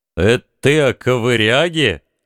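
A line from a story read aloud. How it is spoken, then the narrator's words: Feigned innocent question. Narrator (Russian): Внешне невинно поинтересовался Фальгрим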